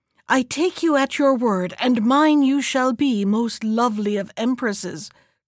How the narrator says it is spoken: cried the emperor

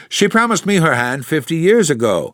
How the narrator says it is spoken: exclaimed Mr

